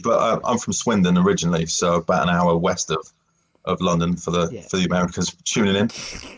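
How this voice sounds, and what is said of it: English accent, not East London. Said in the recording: “I'm not from East London, as you might be able to tell from the accent”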